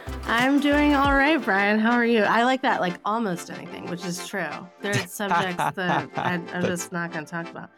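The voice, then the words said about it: Slightly sick-sounding voice. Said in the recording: “I'm a little under the weather. Listeners may hear it in my voice”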